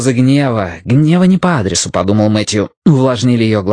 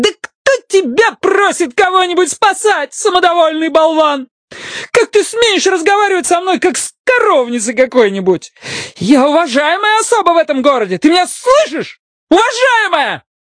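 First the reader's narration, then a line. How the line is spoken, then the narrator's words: Shouting in his face. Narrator (Russian): Она кричала ему прямо в лицо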